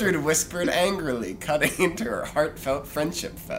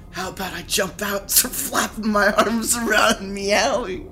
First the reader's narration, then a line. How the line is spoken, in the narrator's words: Garden Tool screeching in fury